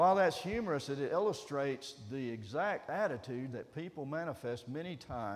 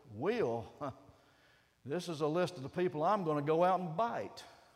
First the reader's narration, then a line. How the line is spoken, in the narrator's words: looked at him derisively and snorted